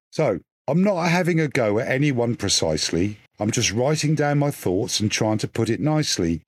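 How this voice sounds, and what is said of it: Norfolk accent. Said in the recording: “all of my verse is always uh, written in a Norfolk accent, so that helps the reader understand uh, the rhythm”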